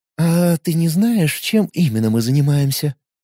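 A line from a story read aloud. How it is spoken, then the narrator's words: Cooing girl. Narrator (Russian): проворковала девушка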